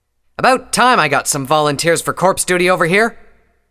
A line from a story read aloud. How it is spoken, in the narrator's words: the Earth Pony said impatiently